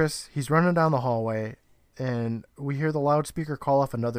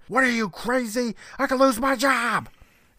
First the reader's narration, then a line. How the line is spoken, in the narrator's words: Roy screaming